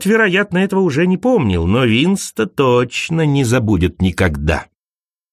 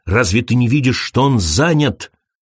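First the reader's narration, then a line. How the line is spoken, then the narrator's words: Irritated snap. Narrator (Russian): огрызнулся он на Крейга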